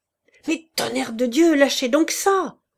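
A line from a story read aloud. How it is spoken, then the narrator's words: Shouting. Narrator (French): cria Jean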